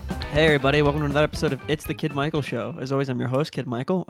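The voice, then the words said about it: Voice slightly deeper than usual. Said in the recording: “my voice is slightly deeper right now ... You sound kind of sexy”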